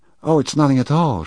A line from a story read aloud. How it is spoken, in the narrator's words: she cried, with a sudden shrill note in her voice